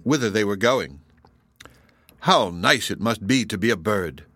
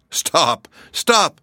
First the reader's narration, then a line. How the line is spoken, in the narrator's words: cried she, pretending to be smothered